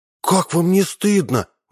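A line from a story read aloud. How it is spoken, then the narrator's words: Exclamation. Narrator (Russian): воскликнула Марина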